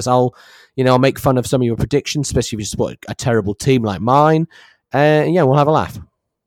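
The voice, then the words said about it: English accent. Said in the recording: “our sexy English accent”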